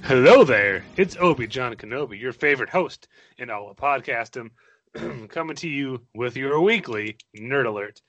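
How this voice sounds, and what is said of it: Voice sounds sick, under the weather. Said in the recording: “Please forgive my voice, I'm a bit under the weather.”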